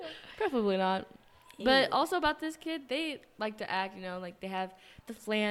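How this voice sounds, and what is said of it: Usual voice. Nothing is said of it.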